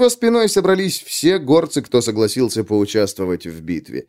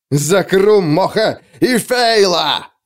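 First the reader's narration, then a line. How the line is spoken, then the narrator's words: Roaring. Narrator (Russian): взревел Скен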